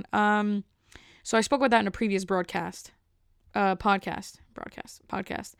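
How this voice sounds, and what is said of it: Out of breath while talking. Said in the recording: “why am I out of breath just talking right now? This is crazy to me. I'm out of breath. ... it's like I walked upstairs, but I'm just sitting down”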